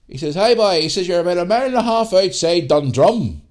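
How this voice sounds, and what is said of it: Rural Northern Irish country accent. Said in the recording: “I'll put the accent on here, country accent.”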